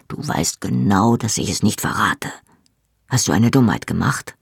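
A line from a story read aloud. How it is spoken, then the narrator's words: Quiet speech. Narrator (German): sagte Jamie leise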